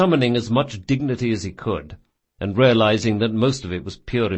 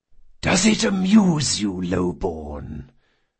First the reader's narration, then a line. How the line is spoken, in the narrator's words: the Don asked in a serpentine whisper